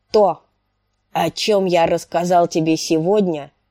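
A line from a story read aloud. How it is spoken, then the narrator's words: Extra gruff. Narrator (Russian): проговорил он еще более грубо, чем обычно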